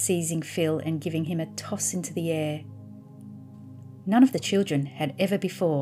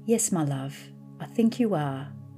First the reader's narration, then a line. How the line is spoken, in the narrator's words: replied Dr